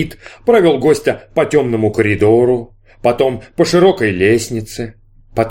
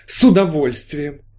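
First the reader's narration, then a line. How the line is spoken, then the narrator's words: Exclaim. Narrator (Russian): воскликнул толстяк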